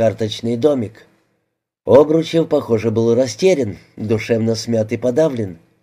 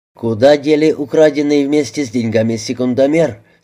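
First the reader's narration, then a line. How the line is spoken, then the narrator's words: Plain. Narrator (Russian): спросил капитан Беляев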